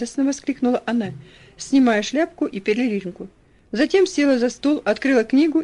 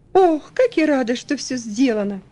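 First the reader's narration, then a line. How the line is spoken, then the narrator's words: Joyful exclamation. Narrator (Russian): Элси … радостно воскликнув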